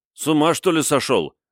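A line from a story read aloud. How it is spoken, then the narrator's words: Exclamation. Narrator (Russian): воскликнул Кейти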